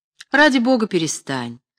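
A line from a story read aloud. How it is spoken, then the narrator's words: Trembling anguished exclamation. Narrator (Russian): воскликнул Генрих, дрожавший от тоски, пробужденной привязанностью и опасением девушки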